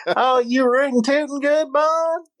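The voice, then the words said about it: Put-on Texan accent. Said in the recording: “he went all in on that Texas accent, too”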